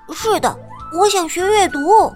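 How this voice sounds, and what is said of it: Small mouse voice, speaking quietly. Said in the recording (Chinese): “小老鼠小声的回答”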